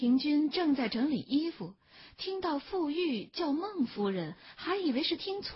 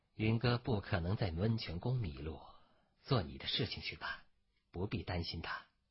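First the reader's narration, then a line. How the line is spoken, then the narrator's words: Calm, indifferent. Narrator (Chinese): 孟爵只是淡淡的说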